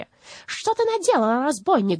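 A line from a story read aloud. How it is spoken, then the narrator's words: Shrieking. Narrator (Russian): завизжала Бастинда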